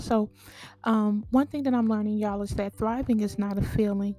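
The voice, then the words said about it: Weakened voice still recovering. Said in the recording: “my voice is still coming back from surgery”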